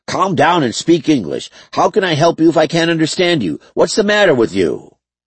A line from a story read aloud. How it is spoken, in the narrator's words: He was upset and shouting right back at her